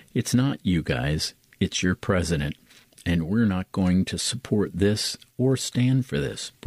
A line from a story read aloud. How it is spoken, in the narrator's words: Brayard says